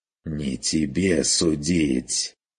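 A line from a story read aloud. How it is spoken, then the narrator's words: Fierce hiss. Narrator (Russian): прошипел господин ожесточенно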